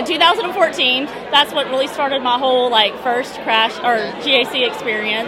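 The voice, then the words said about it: Louisiana accent. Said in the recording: “from Shreveport, Louisiana... I get the accent... definitely the accent”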